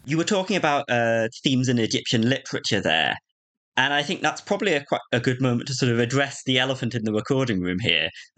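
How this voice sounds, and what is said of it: British accent. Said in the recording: “we're both talking with a British accent ... two British accents”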